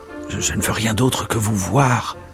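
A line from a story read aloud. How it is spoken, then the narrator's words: Murmuring stranger. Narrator (French): murmura l'étranger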